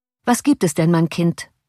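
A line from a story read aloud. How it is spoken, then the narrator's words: Plain. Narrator (German): fragte de Witt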